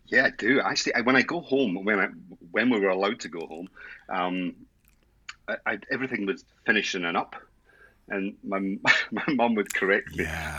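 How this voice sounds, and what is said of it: Scottish Edinburgh accent. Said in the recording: “Scottish, Edinburgh, Edinburgh born and bred ... I've almost lost the accent ... nope. not not even a little bit.”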